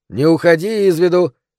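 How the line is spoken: Shouting after someone. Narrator (Russian): крикнул Джеймс ему вслед

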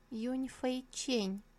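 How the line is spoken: Timid young man. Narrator (Russian): Молодой четвертый господин робко произнес

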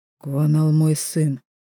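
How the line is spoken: Growled through teeth. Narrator (Russian): сквозь зубы рычит Шона

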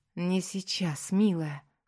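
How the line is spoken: Breathed out. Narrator (Russian): выдохнул он

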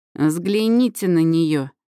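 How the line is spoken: Snorting saleswoman. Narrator (Russian): фыркнула продавщица

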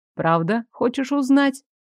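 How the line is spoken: Calm, even, friendly inquiry. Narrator (Russian): Все так же ровно, спокойно и доброжелательно осведомился пожиратель

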